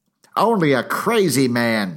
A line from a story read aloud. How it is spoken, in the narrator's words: she shouted